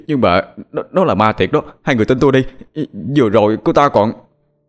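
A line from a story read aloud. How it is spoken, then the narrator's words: Strained stammering. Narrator (Vietnamese): cố gắng gượng ngồi dậy mà lắp bắp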